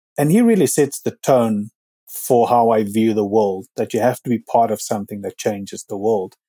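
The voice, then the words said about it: South African accent. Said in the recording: “The accent, as everybody will hear from now, and those who know me, South African”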